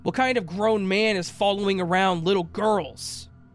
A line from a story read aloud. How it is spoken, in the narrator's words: said it loud enough for him to hear